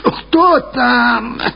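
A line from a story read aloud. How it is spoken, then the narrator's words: Shout with muffled cough. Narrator (Russian): закричала она, глухо кашляя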